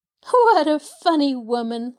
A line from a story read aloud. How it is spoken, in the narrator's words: laughed Pollyanna